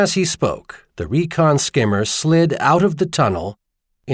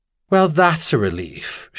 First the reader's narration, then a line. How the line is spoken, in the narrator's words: Charlian said dryly